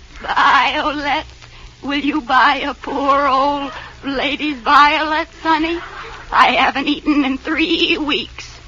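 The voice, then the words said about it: Bleating goat-like old lady voice. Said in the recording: “you sound like a goat.”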